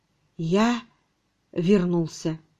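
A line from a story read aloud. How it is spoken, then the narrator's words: Trembling lifeless whisper. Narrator (Russian): дрожа всем телом, безжизненным шепотом он произнес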